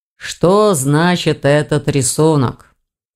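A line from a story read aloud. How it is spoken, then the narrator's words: Tired question. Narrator (Russian): устало спросил Саргон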